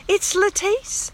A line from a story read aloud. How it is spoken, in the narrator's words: cried